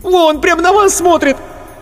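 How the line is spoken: Shrieking, yelling. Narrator (Russian): Марина Ходосевич опять взвизгнула, завопила

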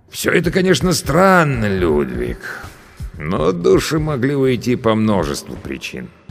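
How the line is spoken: Serious thoughtful drawl. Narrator (Russian): стал более серьезным, размышляя, протянул

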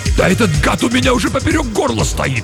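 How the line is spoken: Sharp bark. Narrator (Russian): рявкнул Юров

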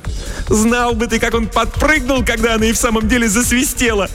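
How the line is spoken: Ringing laughter. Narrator (Russian): звонко расхохоталась Селина

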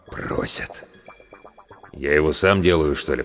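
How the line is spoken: Mutter. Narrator (Russian): пробормотал главврач

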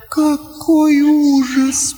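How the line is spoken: Moaning. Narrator (Russian): простонала Лаура

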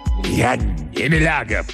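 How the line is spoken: Growled. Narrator (Russian): прорычал профессор Мейер

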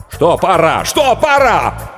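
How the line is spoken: Nervous shout. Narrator (Russian): Букер нервно закричал

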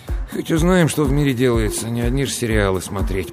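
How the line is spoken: Grumbled. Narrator (Russian): пробурчал он

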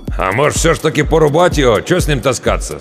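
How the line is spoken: Doubtful snort, older man. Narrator (Russian): с сомнением хмыкнул тот, что постарше

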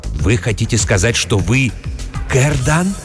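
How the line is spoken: Whispered question. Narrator (Russian): шепотом спросил трактирщик

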